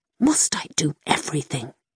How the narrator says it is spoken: muttered to himself

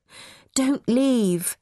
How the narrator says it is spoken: Mum pleaded

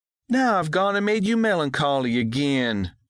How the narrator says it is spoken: Daisy June moaned

